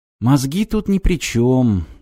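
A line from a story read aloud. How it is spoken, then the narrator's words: Sighing. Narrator (Russian): вздохнула рысь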